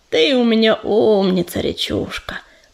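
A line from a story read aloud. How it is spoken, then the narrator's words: Deep booming voice. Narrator (Russian): пробасил подошедший ураган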